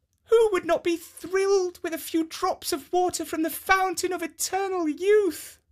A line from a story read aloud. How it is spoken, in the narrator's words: exclaimed